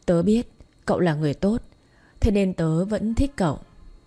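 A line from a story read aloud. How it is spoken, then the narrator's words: Smiling mutter. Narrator (Vietnamese): Vi mỉm cười, miệng lẩm bẩm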